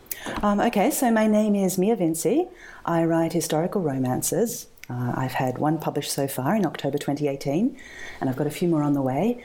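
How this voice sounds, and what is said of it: Australian accent. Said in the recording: “That's just my Australian accent.”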